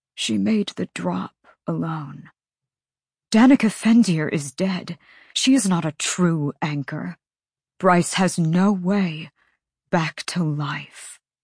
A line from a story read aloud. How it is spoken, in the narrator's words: The Autumn King said hoarsely